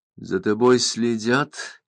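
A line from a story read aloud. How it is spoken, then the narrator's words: Barely audible question, chewing. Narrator (Russian): еле слышно спросил сидящий напротив посетитель, продолжая жевать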